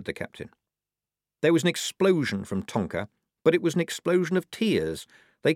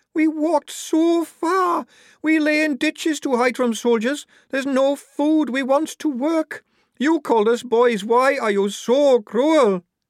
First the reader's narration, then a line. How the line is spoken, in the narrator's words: Tonka's shoulders heaved with the force of her sobs